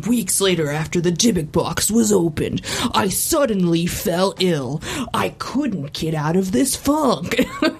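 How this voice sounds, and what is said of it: Imitates another person's voice. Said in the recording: “that was the perfect impression of that voice.”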